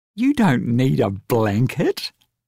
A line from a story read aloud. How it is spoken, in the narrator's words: laughed Rose